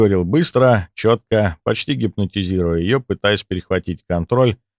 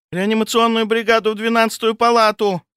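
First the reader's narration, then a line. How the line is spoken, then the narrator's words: Shout into intercom. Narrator (Russian): крикнула Лизочка в селектор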